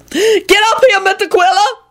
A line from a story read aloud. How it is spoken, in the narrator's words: Lucretia wailed